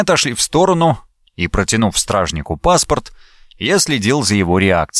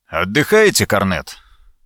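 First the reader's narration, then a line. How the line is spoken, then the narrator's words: Calm question. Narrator (Russian): лейтенант спокойно спросил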